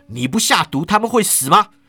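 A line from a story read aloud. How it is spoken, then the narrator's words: Angry. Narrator (Chinese): 庄生怒道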